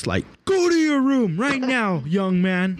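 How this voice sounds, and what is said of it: Stern scolding dad voice. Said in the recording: “have you practiced your dad voice?”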